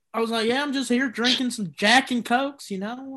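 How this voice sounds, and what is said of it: Put-on Texas accent. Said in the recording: “do like a Texas accent. Like you have it.”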